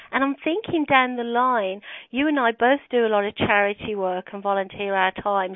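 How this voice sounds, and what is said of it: Birmingham accent. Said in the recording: “Birmingham is my hometown, as you know, and everybody laughs at my accent”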